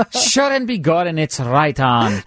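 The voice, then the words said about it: Put-on Irish accent. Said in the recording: “probably a little bit Irish ... Your accent is right on.”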